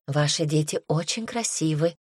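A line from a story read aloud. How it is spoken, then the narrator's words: Tearful whisper. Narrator (Russian): шептала Элизабет, промокая слезы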